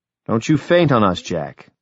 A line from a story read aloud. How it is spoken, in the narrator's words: said sharply